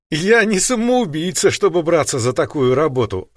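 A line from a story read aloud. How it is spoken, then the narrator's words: Laughing. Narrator (Russian): рассмеялась Харуми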